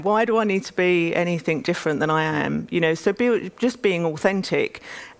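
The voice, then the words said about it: East London accent. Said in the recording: “I'm from East London. You know, I talk with a, a certain accent”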